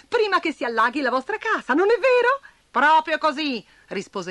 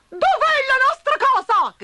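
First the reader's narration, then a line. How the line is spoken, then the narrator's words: Shouted together. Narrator (Italian): gridarono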